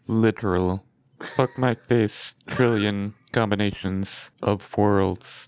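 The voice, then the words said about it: Robotic computer speech-synthesizer voice. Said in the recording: “You should have said that in a Stephen Hawking voice. ... it even sounds like it's through a speaker.”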